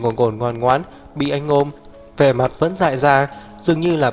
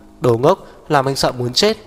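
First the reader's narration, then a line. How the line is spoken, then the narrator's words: Trembling reproachful whisper. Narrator (Vietnamese): trách móc nặng nề, run run thì thào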